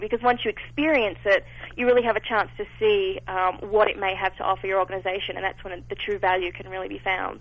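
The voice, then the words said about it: Elegant-sounding accent. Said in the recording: “that elegant accent”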